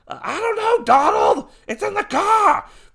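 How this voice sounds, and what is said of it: Boston accent. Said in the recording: “I guess they're from Boston now, with that accent.”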